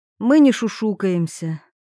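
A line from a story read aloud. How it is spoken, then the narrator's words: Sighed. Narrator (Russian): Милана вздохнула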